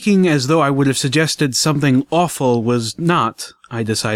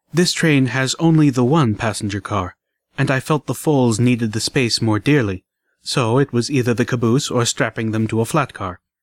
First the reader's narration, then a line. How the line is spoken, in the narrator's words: Less softly